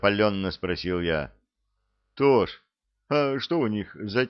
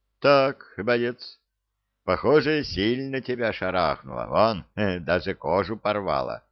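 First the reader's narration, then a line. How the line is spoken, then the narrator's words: Calm. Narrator (Russian): спокойно сказал Саня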